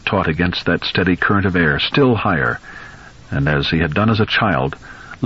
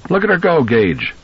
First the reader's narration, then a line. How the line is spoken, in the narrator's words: Lewis yelled, laughing